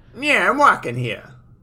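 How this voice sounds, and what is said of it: New York accent. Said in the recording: “a familiar New York accent”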